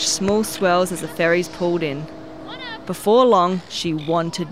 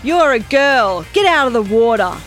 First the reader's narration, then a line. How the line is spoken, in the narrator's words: One man yelled